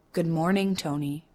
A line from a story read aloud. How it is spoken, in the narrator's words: she says